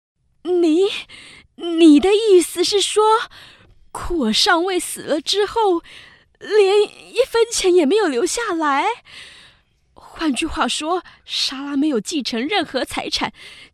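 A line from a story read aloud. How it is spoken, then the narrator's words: Trembling, stammering. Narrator (Chinese): 他用颤抖的声音结结巴巴地说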